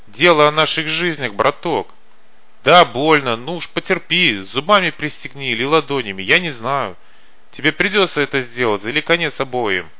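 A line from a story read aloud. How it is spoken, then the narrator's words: Outright shout. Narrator (Russian): Погон прямо-таки закричал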